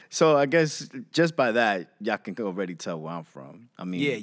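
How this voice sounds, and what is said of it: New York accent. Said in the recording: “My accent already ... kind of tells you where I'm from ... That's New York people say ... I'm from Jamaica, Queens, New York”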